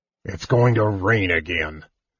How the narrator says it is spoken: Flint grumbled

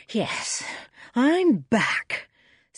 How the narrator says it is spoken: said the panting man

